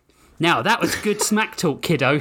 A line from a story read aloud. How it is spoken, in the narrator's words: Hijoki laughed